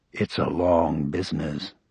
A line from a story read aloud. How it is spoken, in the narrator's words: he murmured